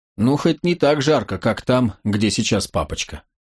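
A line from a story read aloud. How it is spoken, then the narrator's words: Cheerful, sneezing. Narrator (Russian): Джулия, которая принялась чихать, бодро заявила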